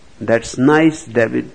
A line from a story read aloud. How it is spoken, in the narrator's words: she said